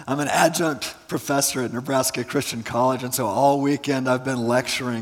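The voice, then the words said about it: Hoarse, strained, fading voice. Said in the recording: “I'm in the process of losing my voice... it's taken a toll on my voice”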